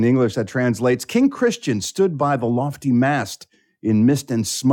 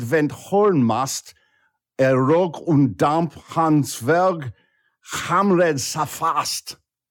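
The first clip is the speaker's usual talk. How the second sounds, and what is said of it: Put-on Danish accent, sounds German. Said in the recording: “Nice job, by the way, with your accent. ... I have no idea if that was actually Danish or not, but I could make it sound like it. ... It kind of sounded German too”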